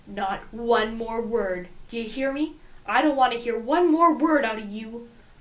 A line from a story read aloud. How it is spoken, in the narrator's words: growls